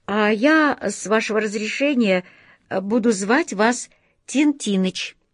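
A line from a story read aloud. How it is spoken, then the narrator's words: Plain. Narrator (Russian): сказал дядя Алеша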